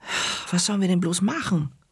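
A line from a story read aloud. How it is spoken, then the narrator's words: Groaning. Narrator (German): stöhnte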